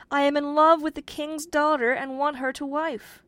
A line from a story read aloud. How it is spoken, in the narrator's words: cried the young man